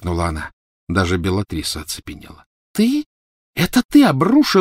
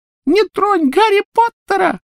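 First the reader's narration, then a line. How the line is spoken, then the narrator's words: Squeaky voice. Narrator (Russian): пропищал он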